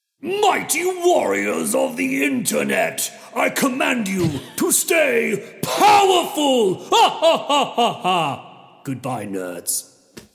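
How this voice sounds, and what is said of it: Impression of Zargothrax character voice. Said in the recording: “my best Zargothrax impression... That was really good.”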